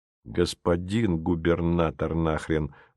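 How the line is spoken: Grumbling, stressing a word. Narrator (Russian): буркнул внутренний голос, делая акцент на слове

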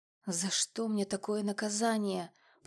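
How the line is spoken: Tired muttering with sigh. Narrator (Russian): пробормотала я себе под нос, устало вздохнув

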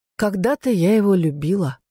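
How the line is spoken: Sighing. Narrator (Russian): вздохнула она

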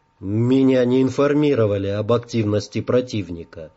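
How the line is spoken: Plain. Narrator (Russian): ответил Эйден

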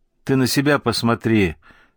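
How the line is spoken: Snapping retort. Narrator (Russian): огрызнулся Герка

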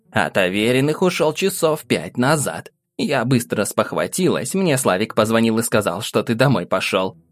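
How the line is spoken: Plain. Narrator (Russian): ответила бабушка

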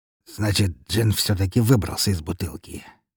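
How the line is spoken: Mutter. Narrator (Russian): пробормотал князь

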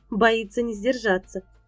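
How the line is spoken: Laughing. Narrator (Russian): засмеялась Шейла

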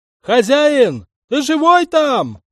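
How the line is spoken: Farmhand bellowing loudly. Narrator (Russian): заорал во всю глотку батрак

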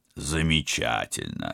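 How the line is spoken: Absent-minded mutter. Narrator (Russian): рассеянно пробормотал Станислав

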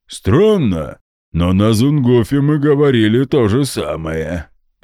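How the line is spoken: Booming drone. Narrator (Russian): прогудел Гундахар

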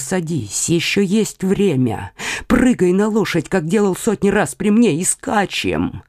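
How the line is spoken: Whisper. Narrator (Russian): Коконас шепнул Лямолю

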